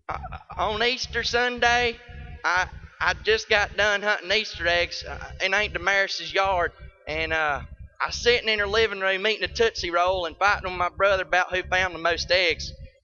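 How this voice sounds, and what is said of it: Child-like southern drawl. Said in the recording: “in my 5-year-old southern drawl”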